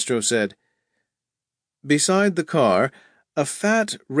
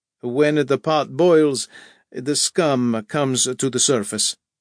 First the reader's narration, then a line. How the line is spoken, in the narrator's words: said the priest